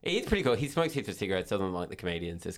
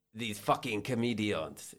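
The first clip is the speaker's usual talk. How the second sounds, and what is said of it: Attempted French accent. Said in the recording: “it's clearly you're going for French”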